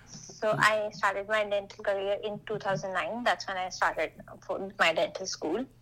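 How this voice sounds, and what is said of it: Indian accent. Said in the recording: “you are from India, just so I know everybody will hear your accent.”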